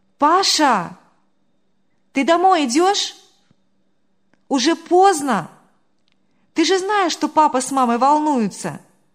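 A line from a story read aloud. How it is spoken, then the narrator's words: Loud calling. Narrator (Russian): вдруг громко позвала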